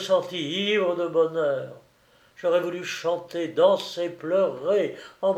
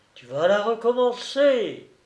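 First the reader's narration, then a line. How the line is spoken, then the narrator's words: Inner voice crying out. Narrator (French): une voix criait en moi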